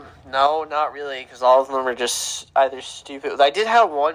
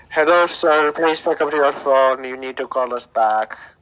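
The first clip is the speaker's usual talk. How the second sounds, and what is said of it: Put-on Indian accent. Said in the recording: “some Indian accent”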